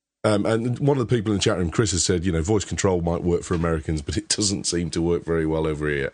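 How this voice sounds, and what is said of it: Birmingham English accent. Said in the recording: “your Brummy accent”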